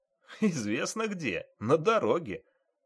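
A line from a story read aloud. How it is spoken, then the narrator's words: Chuckle. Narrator (Russian): хохотнул водитель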